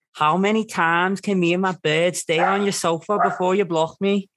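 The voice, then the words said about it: Put-on Scouse accent. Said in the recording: “my friend who does a really good Scouse accent ... That was a really, really, really good Scouse accent.”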